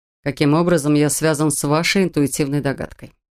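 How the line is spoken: Displeased tone. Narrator (Russian): Недовольным тоном спросил Контрол

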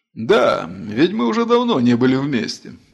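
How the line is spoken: Laughing. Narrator (Russian): засмеялся Атор

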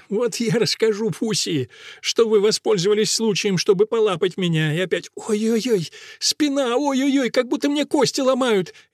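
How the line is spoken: Laughing through tears. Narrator (Russian): Она, смеясь сквозь слезы

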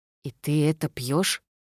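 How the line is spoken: Insistent whisper. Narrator (Russian): Виола настойчиво прошептала

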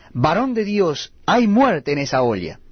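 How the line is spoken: Men crying out. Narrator (Spanish): gritaron diciendo

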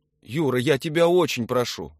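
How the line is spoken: Pleading wife. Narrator (Russian): взмолилась жена

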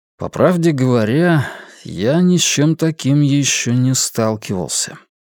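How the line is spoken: Sighing. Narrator (Russian): вздохнул Вивьен

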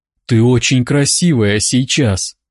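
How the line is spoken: Breathy whisper in ear. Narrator (Russian): выдохнул он ей в ухо

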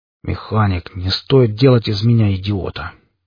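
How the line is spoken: Angry, through gritted teeth. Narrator (Russian): Со злобой в голосе процедил сквозь зубы

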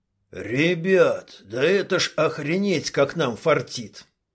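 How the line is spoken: Hoarse rasp. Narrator (Russian): прохрипел Шалый

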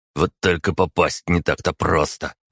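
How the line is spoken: Grumbling mutter. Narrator (Russian): пробурчал Михаил

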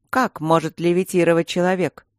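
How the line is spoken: Angry sigh. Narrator (Russian): снова зло вздохнула

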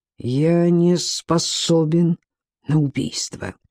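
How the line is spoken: Through gritted teeth. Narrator (Russian): сквозь зубы произнес Ци

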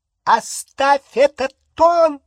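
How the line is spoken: Shrill. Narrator (Russian): Визгливо начала тетя Петунья

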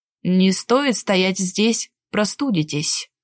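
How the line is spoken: Gruff grumbling man. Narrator (Russian): Проворчал всегда угрюмый и непрошибаемый мужчина

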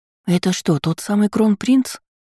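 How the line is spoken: Loud whispered question. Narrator (Russian): спросила одна из них громким шепотом

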